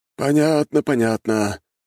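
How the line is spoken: Sighing. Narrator (Russian): вздохнул князь воды

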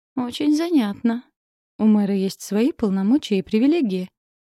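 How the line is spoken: Short laugh. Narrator (Russian): хохотнул Ростер

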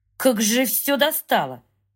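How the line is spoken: Through gritted teeth. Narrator (Russian): цедит он сквозь зубы

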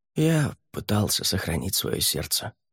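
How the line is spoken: Quiet. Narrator (Russian): тихо сказал он

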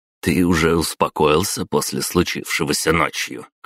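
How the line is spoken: Snorting remark. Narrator (Russian): хмыкнул Тимофей

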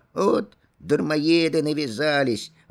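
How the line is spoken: Irritated old woman grumbling. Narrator (Russian): ворчала раздосадованная старуха

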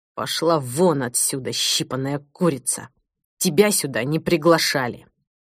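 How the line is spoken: Helpless, through clenched teeth. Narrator (Russian): Сквозь сжатые в бессилии зубы он процедил

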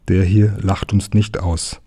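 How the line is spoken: Plain reply. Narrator (German): antwortete der Herr

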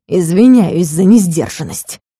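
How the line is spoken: Furious hiss. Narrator (Russian): прошипел с яростью

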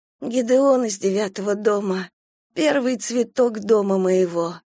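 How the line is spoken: Hoarse. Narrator (Russian): хрипло сказала она

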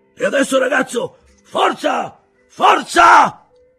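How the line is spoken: Shouted command. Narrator (Italian): gridò

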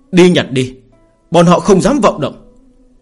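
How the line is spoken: Impatient outburst. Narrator (Vietnamese): Tiêu Kiếm Minh đã không nhịn được nói

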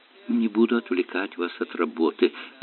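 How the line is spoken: Mumble. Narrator (Russian): пробормотала мисс Диверси

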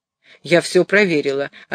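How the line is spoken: Still angry. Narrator (Russian): ответила она еще сердитым тоном

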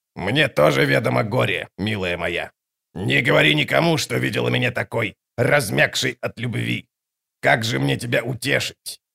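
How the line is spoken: Hoarse rasp. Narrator (Russian): Мхиби прохрипела

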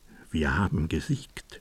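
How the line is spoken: Said quietly. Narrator (German): seine Hoheit sagte leise

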